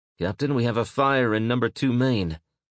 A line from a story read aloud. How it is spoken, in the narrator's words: the watch officer said in a tight voice